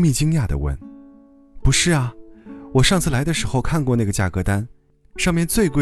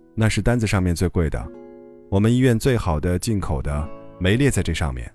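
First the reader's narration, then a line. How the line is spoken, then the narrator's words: Cold. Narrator (Chinese): 医生冷冷地说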